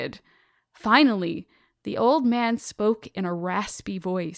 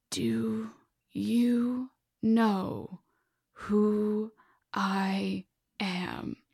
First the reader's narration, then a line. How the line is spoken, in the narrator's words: He said slowly, chewing on every word that escaped his throat